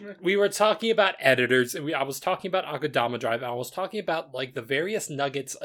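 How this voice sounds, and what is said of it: Usual voice. Nothing is said of it.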